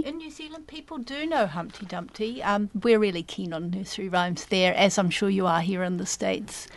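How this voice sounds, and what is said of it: Lovely foreign accent. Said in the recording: “I had to get that accent on the air ... She speaks accent. So beautifully. ... Lovely accent.”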